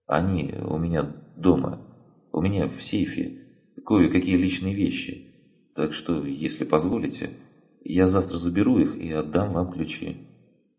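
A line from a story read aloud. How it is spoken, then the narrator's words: Unsure mumble. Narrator (Russian): Бывший управляющий неуверенно пробормотал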